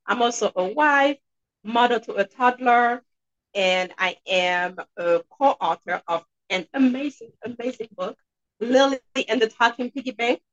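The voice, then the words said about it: Haitian accent. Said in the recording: “I'm sure you guys can hear an accent. And yes, I'm from Haiti”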